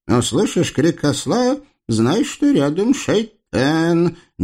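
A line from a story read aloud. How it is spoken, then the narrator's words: Displeased mutter. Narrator (Russian): недовольно пробормотала злобная теща каирской ртути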